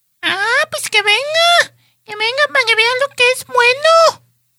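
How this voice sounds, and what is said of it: Child's voice. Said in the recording (Spanish): “dilo así con voz así de que... Voz de niño”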